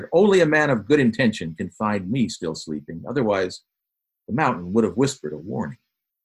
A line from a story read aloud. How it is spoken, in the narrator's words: he firmly declared